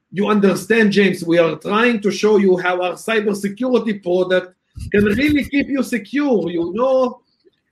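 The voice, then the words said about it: Put-on Hebrew accent, broken English. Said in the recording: “better with a Hebrew accent. Yes, I do love the Hebrew accent ... they're breaking English, man. They're having a hard time.”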